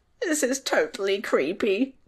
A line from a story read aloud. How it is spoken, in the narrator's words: Tom squeaked, his voice trembling